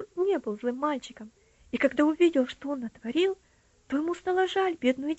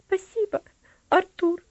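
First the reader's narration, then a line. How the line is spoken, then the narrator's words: Girl smiling through tears. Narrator (Russian): ответила девочка, улыбаясь сквозь слезы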